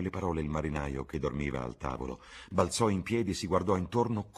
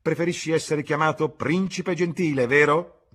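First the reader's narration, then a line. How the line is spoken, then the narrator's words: Shouted after someone. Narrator (Italian): urlò dietro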